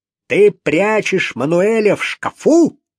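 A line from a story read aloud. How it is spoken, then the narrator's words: Yelling. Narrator (Russian): завопил он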